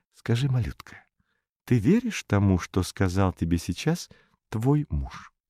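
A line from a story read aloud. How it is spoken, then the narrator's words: Whispered question. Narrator (Russian): Балкис спросила шепотом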